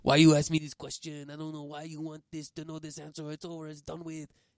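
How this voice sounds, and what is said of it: Generic put-on French accent. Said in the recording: “your Thierry Henry accent ... That was my French accent ... your generic French guy accent, because that sounded zero like Thierry Henry”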